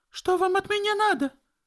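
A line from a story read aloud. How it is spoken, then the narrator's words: Girl exclaiming. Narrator (Russian): воскликнула девушка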